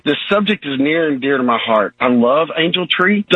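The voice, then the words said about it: Choked-up, emotional voice. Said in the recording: “I'm getting a little choked up here”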